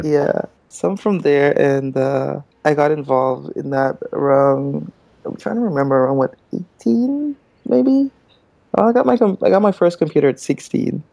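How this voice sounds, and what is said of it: Guyanese accent. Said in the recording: “I was picking up on an accent.”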